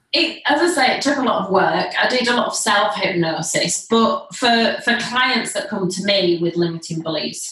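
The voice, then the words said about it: Noticeable regional accent. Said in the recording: “you do have a funny accent”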